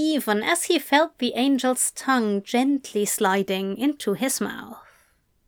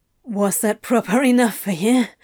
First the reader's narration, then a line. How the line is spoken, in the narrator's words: Crowley gasped, feeling as flushed as Aziraphale looked when they broke the kiss for air